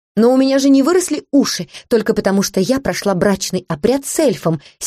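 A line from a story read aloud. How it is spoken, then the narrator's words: Angry snort. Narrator (Russian): сердито фыркнула Олета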